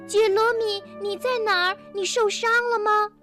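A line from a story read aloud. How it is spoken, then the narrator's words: Calling out again. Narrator (Chinese): 又叫了起来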